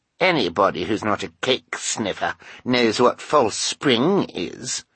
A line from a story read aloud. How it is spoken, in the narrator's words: Carmelita said in a scornful voice